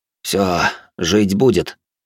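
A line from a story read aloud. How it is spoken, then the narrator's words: Relieved sigh. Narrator (Russian): Эд вздохнул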